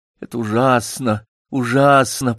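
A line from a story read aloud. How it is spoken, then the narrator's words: Moaning. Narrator (Russian): простонал Такса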